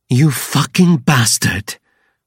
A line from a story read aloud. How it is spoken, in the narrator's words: Veya growls